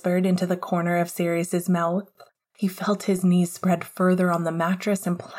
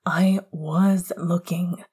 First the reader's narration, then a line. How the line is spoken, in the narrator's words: Sirius answered hoarsely